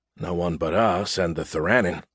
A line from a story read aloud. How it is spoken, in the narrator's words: I muttered